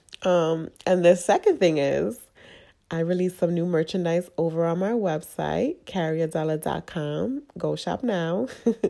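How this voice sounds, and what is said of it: Nasal, congested voice. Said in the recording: “I don't know if you can hear it. I am sick. ... I sound very nasally, ... I'm super congested.”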